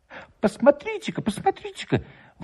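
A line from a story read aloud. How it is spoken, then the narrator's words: Exclaiming village elder. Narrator (Russian): воскликнул староста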